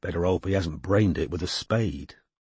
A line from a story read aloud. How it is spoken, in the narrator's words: muttered Strike